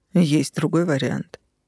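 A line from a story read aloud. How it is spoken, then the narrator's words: Sour snort. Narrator (Russian): кисло хмыкнул ЛСД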